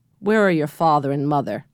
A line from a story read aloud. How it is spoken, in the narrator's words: she asked